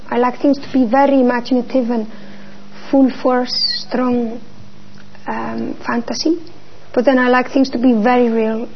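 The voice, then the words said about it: Very strong accent. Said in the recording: “you have very strong accent, even though you have been living in London for a long time”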